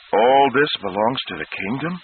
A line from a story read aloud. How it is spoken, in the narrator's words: Thomas asked in an awed voice